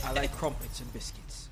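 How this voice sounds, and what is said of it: Put-on English accent. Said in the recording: “It's always the English people. ... Drop the accent.”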